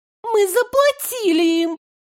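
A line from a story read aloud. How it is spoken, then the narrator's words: Thin high exclamation. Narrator (Russian): тоненько воскликнула Алейна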